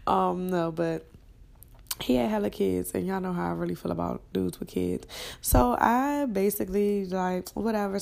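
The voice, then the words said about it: Congested, sniffly voice. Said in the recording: “sorry for my voice and keep sniffing it. My allergies is acting up.”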